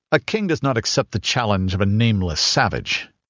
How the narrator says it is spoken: he sneered

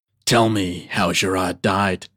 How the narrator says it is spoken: growled the Irish warrior

